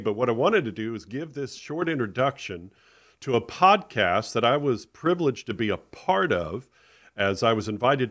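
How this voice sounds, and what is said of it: Voice sounds off from illness. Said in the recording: “my voice sounds a little off. That's because I have been sick”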